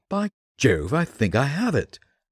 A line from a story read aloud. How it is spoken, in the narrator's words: He exclaimed